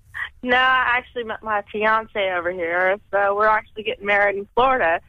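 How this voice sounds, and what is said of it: American accent. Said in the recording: “I'm American ... it's just an American accent ... I like your American”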